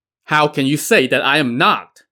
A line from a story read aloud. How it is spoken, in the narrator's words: Yin Hong barked